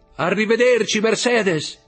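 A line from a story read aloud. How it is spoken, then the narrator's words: Shouted. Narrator (Italian): gridò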